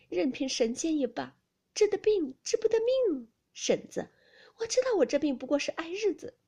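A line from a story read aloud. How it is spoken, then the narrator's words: Laughing. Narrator (Chinese): 秦氏笑道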